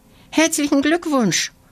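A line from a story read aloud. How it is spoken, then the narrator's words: Calling out. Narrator (German): ruft Lina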